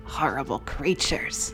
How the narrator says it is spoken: I muttered

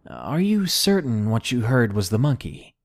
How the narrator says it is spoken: he asked me

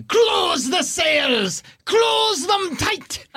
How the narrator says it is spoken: Captain Belbarum screams up at Arthur Bellany and at you, Fish

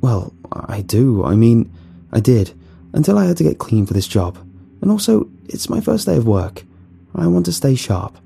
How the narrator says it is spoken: I stammered

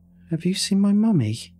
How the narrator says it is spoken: asked, no fear or emotion in her little voice

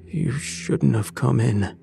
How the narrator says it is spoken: he rasped

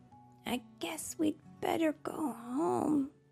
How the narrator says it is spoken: Bambi said, sadly

